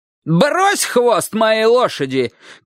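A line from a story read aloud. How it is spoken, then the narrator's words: Old man shouting. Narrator (Russian): крикнул дедушка по-абхазски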